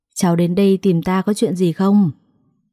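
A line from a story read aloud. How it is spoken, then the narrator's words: Smiling question. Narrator (Vietnamese): Cô mỉm cười hỏi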